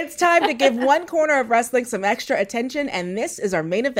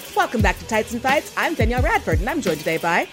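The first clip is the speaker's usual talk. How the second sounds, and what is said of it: Bright, overly perky kids-TV voice. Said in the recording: “my voice got really like, hi! ... I got really Disney Channel there for a minute”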